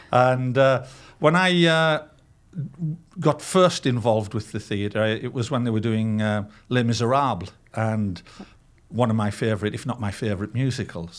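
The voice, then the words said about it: Non-American, UK-origin accent. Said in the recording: “as you can tell, this accent of mine doesn't come from South Dakota ... having come from a professional background in my early life over in the UK”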